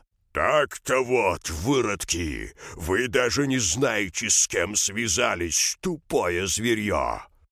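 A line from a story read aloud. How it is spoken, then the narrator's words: Menacing growl. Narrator (Russian): Ставр грозно прорычал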